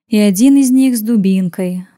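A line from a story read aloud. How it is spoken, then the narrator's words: Sighing young elf woman. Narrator (Russian): вздохнула Кита, самая молодая эльфийка в отряде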